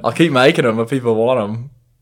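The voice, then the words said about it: Put-on Australian accent. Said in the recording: “he's got a dirty Australian accent ... that's a good Aussie accent ... Not a very good Chris, though”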